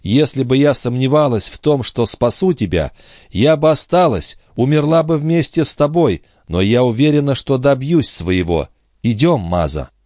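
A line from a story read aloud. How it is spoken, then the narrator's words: Agitated girl's voice. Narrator (Russian): промолвила девушка взволнованным голосом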